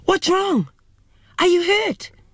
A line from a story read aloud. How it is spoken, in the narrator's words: My mother let out a terrified yell, screamed